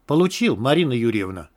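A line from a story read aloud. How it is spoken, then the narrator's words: Calm admission. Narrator (Russian): спокойно признался Федор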